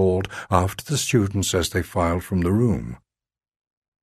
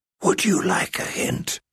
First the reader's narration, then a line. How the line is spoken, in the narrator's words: I whispered